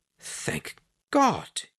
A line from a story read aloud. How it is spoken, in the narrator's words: he muttered